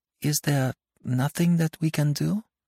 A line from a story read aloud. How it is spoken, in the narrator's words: She asked timidly